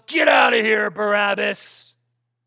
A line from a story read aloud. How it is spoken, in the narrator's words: growls